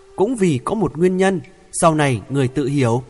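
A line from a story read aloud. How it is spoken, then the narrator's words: Smiling reply. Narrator (Vietnamese): Hữu Tâm Nhân mỉm cười đáp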